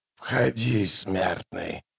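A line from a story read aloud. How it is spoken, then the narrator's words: Hoarse, creaking voice after coughing. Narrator (Russian): надсадный кашель, а затем хриплый голос проскрипел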